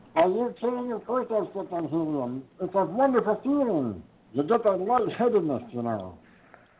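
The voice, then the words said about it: High-pitched squeaky helium voice. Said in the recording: “there's my helium voice”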